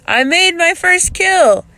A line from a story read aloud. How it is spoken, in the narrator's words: he yelled